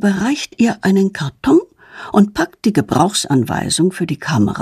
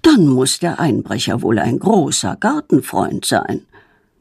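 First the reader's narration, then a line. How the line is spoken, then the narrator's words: Murmuring. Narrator (German): murmelt er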